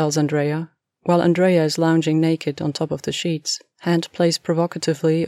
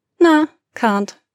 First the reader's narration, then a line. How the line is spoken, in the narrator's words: Andrea says cheerfully